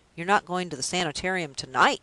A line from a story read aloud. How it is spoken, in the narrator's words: he exclaimed